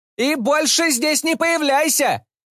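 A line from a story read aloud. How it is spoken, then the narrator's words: Fierce boy shouting. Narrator (Russian): кричал грозный мальчик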